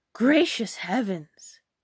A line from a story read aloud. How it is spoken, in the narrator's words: cried her mother